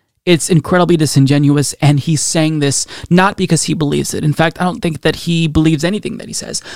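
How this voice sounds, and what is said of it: Usual voice. Nothing is said of it.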